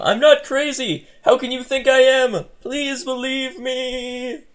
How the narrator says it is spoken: You continued to scream

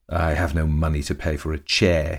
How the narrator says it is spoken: he sneered

